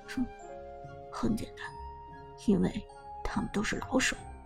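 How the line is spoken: Low, sneering. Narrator (Chinese): 苏哲冷笑一声，低声道

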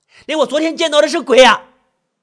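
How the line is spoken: Distraught outburst, shouting. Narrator (Chinese): 水清还没有从昨天晚上一连串的惊惧悲伤中回过神来，听到保安队长周阳说四号楼里空无一人，再也忍不住爆发的喊起来

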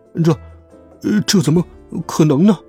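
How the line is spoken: Astonished stammering. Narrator (Chinese): 老肥吃惊的连下巴都快掉下来了，他结结巴巴的说

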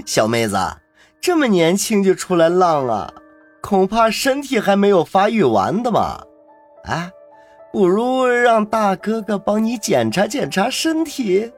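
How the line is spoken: Lewd leering. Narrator (Chinese): 其中的一个胖子一脸的淫笑

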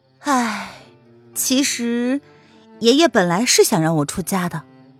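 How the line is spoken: Sighing. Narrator (Chinese): 蒋灵谦叹道

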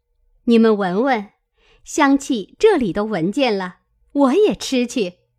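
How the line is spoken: Laughing. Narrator (Chinese): 探春笑道

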